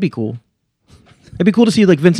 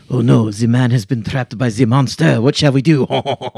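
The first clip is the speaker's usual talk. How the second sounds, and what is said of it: French accent imitating Vincent Cassel. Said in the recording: “Vincent Cassel ... Your French accent is always impressive.”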